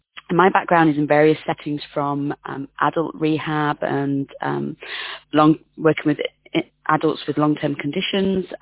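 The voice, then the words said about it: British English accent. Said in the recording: “As you might gather from my accent, I'm from the UK.”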